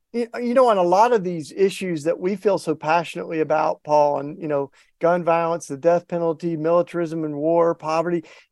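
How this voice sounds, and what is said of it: Southern US accent, East Tennessee. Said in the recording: “I can't hide it. Don't even want to ... I got my Southern accent and grew up in the hills, small town in East Tennessee”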